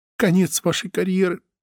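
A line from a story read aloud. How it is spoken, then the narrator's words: Whimpering. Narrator (Russian): проскулила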